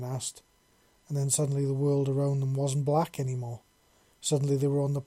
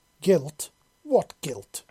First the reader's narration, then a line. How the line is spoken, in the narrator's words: the Elder spat back at him